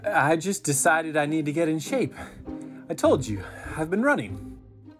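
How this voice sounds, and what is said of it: Out of breath, panting speech. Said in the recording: “why are you always so out of breath?”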